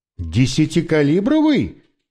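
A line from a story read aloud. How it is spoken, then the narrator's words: Exclamation. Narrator (Russian): воскликнул Моралес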